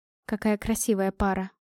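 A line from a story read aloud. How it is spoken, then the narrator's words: Quiet. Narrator (Russian): произнесла я тихо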